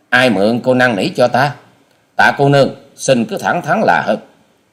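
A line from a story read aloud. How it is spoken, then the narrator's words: Sullen sharp retort. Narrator (Vietnamese): Hoa sĩ Kiệt sầm ngay nét mặt rồi gắt lời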